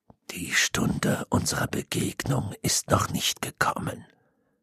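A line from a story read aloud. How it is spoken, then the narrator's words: Hollow sepulchral murmur. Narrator (German): murmelte eine dumpfe Grabesstimme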